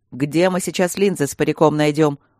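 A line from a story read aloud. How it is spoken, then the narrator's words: Snapping. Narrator (Russian): огрызнулся Свенсон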